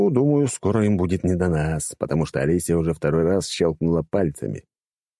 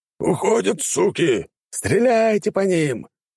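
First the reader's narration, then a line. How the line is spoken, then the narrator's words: Commanders shouting. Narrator (Russian): их командиры кричали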